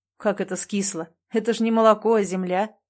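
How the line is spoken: Snorting. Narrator (Russian): хмыкнул Андрей

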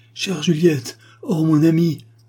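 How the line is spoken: Exclaiming count. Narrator (French): s'écria le comte

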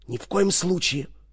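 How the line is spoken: Whisper. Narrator (Russian): шептала она

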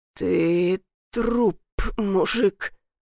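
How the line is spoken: Hoarse. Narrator (Russian): прохрипел

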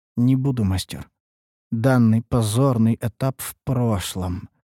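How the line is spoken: Glum female remark. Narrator (Russian): заметила эльфийка уныло

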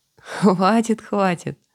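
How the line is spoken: Laughing. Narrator (Russian): засмеявшись

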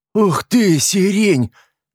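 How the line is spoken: Delighted exclamation, redhead. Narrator (Russian): воскликнула рыжая

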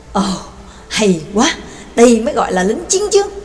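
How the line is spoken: Moved exclamation. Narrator (Vietnamese): Max cũng không khỏi cảm khái thốt lên

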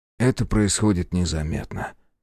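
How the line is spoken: Sad sigh. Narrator (Russian): печально вздохнул А2

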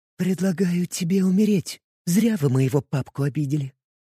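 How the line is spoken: Whisper right into the ear. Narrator (Russian): прошептала умирающему Верховному Архимагу Виви на самое ухо

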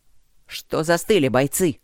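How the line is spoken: Barking shout. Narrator (Russian): рявкнул Байда

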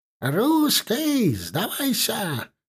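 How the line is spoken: Shouted again. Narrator (Russian): опять кричал знающий язык неверных

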